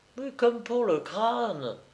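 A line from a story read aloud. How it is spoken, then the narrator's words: Sighing nurse. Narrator (French): soupira l'infirmière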